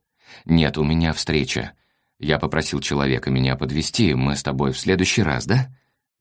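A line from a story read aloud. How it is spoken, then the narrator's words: Mumbling. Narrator (Russian): бормотал Василий Васильевич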